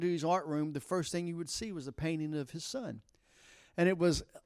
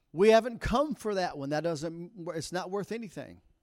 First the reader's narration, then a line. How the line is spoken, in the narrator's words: somebody shouted out in the audience